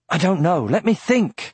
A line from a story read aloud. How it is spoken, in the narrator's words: cried Aragorn